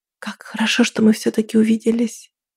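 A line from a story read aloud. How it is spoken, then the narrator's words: Quiet. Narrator (Russian): тихо сказала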